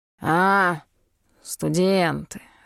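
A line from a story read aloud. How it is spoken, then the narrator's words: Snorting. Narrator (Russian): хмыкнул он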